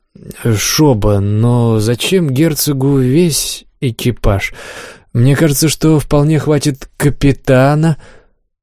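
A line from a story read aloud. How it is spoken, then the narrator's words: Hesitant objection after cough. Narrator (Russian): Олег, кашлянув, неуверенно возразил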